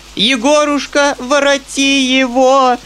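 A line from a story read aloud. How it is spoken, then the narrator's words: Desperate cry. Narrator (Russian): вскричала отчаянным голосом генеральша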